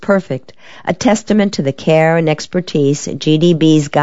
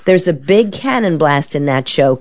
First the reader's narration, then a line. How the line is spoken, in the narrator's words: Carol laughs